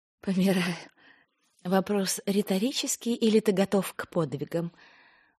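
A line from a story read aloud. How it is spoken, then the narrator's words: Feigned sigh. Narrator (Russian): Он притворно вздохнул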